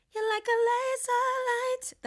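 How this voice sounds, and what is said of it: Sung in falsetto. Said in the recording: “that's falsetto”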